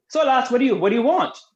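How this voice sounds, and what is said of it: Put-on Irish accent. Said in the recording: “That's my best Irish accent.”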